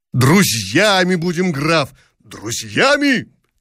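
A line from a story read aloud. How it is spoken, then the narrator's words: Hearty, open shouting. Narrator (Russian): кричал Гагарин с видом откровенного рубахи парня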